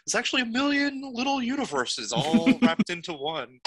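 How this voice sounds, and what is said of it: Imitates another person's voice. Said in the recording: “friendly impersonations. ... That was good. That was good enough”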